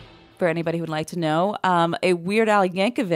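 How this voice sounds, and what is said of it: Usual voice. Nothing is said of it.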